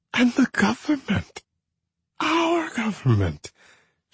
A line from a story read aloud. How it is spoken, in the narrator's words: she moaned, slurring, tears running down her cheeks, snot running down her nose